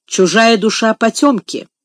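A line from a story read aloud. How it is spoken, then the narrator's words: Stern. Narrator (Russian): строго проговорила мисс Офелия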